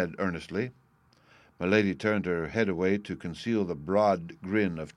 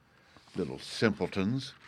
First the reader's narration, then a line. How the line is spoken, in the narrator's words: she muttered to herself